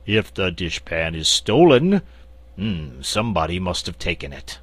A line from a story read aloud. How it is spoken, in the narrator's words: said in his deep, croaking voice